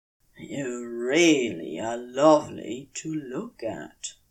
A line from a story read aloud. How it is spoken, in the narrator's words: he says, and his voice is honeyed by appreciation